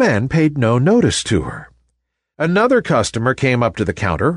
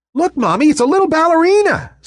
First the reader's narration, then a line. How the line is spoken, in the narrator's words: said a chirpy voice